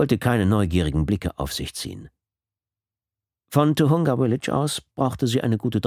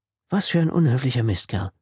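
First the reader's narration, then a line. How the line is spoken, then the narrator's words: Plain. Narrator (German): sagte sie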